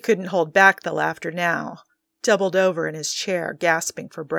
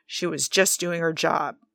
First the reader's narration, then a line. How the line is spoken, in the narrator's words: muttered, exasperated